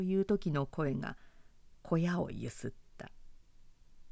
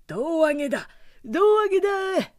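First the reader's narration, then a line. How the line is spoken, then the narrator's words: Shouted. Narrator (Japanese): 誰かがそう叫ぶと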